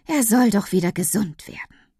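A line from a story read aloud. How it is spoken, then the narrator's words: Woman sighing. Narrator (German): seufzt die Frau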